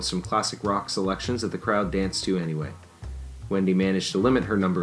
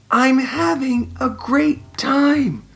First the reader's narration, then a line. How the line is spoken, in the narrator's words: she repeated with a shout, but this time leaning across the table to project her voice